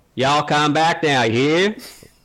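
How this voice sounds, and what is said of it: Put-on Southern American accent. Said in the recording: “I'm gonna do my American accent ... That's not American. That's Southern.”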